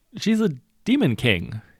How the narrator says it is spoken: splutters

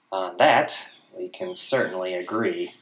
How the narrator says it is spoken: Gaz grumbled

